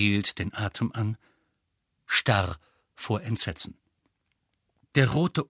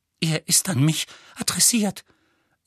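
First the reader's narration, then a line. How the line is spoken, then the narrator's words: Trembling voice. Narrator (German): sagte Petunia mit zitternder Stimme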